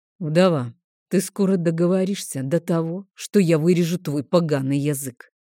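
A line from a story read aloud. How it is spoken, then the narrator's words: Low growling rebuke. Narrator (Russian): низким рычащим голосом осадил ее дракон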